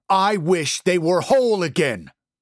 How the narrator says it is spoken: Jim shouted

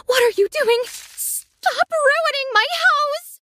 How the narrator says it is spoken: she yelled

